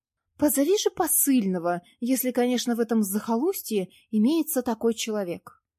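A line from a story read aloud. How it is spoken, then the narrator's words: Capricious exclamation, woman. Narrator (Russian): капризным тоном воскликнула Елизавета Ричардовна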